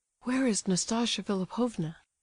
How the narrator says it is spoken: asked, breathlessly

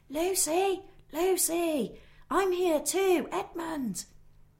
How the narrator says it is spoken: he shouted

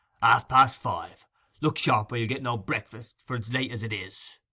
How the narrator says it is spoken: growled Sikes

